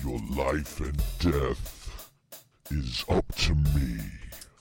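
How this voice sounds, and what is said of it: Scary menacing character voice. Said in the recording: “that was certainly a scary voice.”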